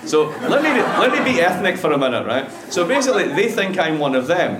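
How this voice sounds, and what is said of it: Scottish accent, not Irish-sounding. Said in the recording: “It's great if you're Scottish ... my accent is about as far removed from an Irish accent as, like, I don't know, let's say someone from the Muppets ... Dundee. ... It's in Scotland.”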